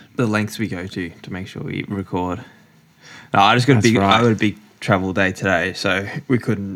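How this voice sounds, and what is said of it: Croaky just-woken-up voice. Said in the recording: “straight out of bed. So my voice is a bit croaky”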